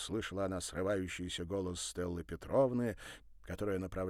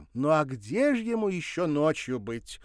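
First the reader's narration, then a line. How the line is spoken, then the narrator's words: Snide exclamation. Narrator (Russian): ехидно воскликнула Александра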